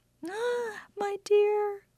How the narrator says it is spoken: cried his wife

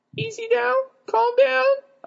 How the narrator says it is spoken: I squeaked soothingly at the beast

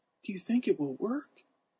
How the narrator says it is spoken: Willie whispered

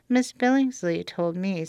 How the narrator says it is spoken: said Jane

